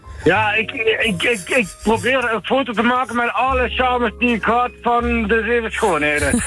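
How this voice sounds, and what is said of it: Limburg Dutch accent. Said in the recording (Dutch): “mijn mooie Limburgs accent”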